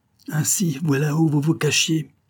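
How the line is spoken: Exclaimed. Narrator (French): s'écria cette aimable personne

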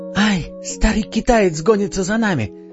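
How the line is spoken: Desperate scream. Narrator (Russian): закричала пастушка и в отчаянии

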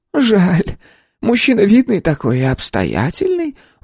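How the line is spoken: Sighing. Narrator (Russian): вздохнула Степановна

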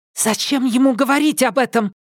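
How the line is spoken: Sharp whisper, girl. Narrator (Russian): резко прошептала одна из девчонок

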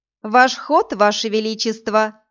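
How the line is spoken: Laughing reminder. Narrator (Russian): смеясь напомнила

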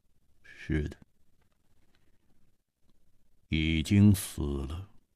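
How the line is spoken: Cold voice. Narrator (Chinese): 沙大户的声音显得冰冷，他说

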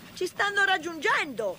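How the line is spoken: Train driver shouting. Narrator (Italian): gridò il macchinista

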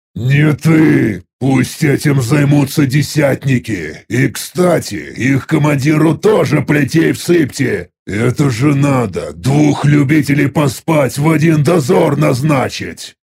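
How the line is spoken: Displeased near-growl. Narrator (Russian): Недовольно практически прорычал я

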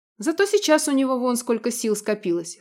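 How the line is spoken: Smirking grunt. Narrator (Russian): хмыкнул Радмир

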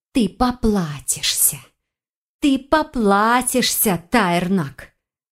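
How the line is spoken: Hissing threat. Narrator (Russian): Зашипела Фаёна

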